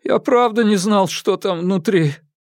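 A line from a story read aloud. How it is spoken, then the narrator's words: Sobbing addition. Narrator (Russian): Всхлипнув, он добавил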